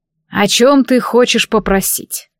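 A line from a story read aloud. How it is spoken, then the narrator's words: Too calm question. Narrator (Russian): Снова спросил он спокойно, слишком спокойно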